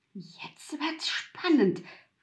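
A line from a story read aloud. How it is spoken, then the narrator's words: Whispered. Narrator (German): wisperte Mutwillen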